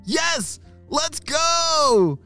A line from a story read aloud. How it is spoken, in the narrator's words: shouted Arlo and Callum together